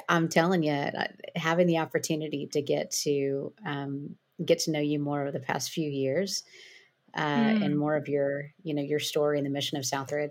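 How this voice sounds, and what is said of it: Southern US twang. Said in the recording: “I'm very far south of you. I don't know if you can hear it in my twang. ... A little bit.”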